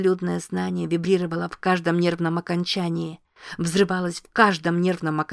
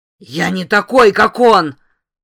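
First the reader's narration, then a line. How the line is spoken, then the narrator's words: Roar. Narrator (Russian): взревел Дули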